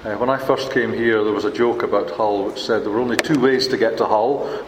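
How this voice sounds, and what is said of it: Non-local accent. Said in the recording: “not born local, as you can probably tell from my accent”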